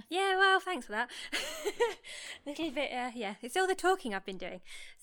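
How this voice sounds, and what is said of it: Slightly out of breath. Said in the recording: “You do sound a little out of breath.”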